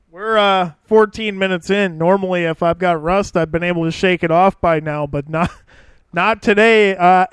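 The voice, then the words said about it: Strained, sore-sounding voice. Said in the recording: “my God, my voice is killing me today.”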